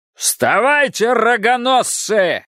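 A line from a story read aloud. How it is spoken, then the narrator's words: Shouting. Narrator (Russian): кричал он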